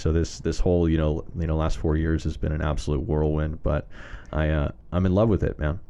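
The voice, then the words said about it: Rich, clear radio-style voice. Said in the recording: “You got a great radio voice too. ... gosh, ... sounds good. ... it cuts through.”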